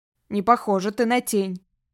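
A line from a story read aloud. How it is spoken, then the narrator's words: Grumbling. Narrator (Russian): проворчал он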